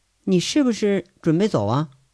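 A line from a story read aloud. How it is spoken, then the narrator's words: Cold. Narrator (Chinese): 韩雪……眼里冷冷的说了一句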